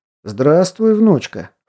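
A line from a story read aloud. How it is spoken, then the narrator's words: Cheerful declaration. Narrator (Russian): вполне бодро заявил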